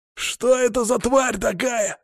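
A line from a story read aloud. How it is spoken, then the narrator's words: Yelling survivor. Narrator (Russian): заорал один из выживших вольных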